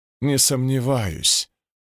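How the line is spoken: Grumbling. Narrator (Russian): проворчала Шалош

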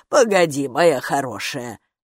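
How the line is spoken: Muttered, by a female gatekeeper. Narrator (Russian): пробормотала привратница

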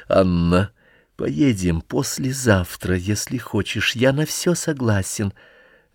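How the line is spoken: Quiet. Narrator (Russian): тихо сказал

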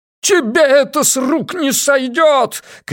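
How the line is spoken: Shouting. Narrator (Russian): кричал Ван Эк

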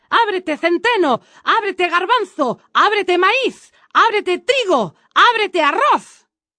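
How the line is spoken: Impatient breathless shout. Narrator (Spanish): Kasim empezó a perder la paciencia y gritó sin tomar aliento

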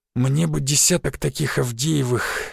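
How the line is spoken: Hoarse, aloud. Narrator (Russian): сипло сказал он вслух

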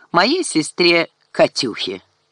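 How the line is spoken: Mocking emphasis. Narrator (Russian): насмешливо подчеркнул он

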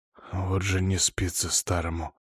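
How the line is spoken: Very quiet muttering. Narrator (Russian): очень тихо себе под нос произнес князь

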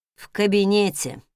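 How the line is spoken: Sighing. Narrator (Russian): вздохнул он

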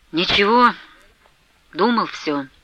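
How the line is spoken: Gloomy speech. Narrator (Russian): уныло проговорил Потап Максимыч

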